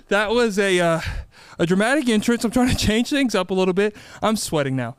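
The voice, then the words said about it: Out of breath, panting. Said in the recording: “I'm out of breath. Yeah, just hold it. I'm out of breath.”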